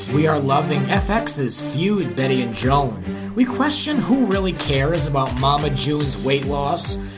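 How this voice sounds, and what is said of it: Rhode Island accent. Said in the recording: “My Rhode Island accent is in full effect”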